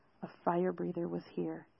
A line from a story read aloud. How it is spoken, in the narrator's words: Zale whispered